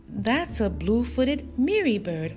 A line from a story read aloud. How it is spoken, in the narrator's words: Olu exclaimed